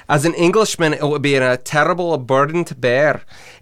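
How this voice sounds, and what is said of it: Put-on Scottish accent. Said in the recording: “Try using a Scottish accent and reading that.”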